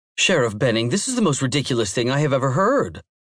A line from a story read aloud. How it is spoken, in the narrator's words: Susanna exclaimed